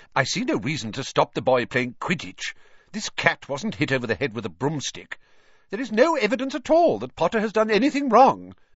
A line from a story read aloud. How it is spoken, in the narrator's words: said Professor McGonagall sharply